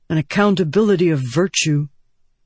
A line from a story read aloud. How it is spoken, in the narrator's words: he grunted